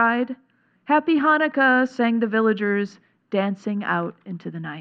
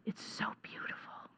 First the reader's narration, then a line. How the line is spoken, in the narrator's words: he whispered